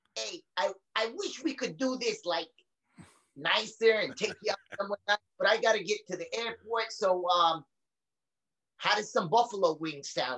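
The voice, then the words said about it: Exaggerated New York accent. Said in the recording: “the most New York-y accent ... the most Goomba fucking New York accent”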